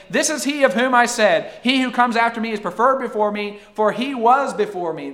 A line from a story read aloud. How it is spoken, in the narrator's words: John cried out, saying